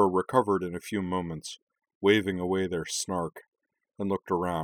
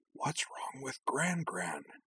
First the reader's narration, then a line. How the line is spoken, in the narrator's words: Karana stage whispered to Azana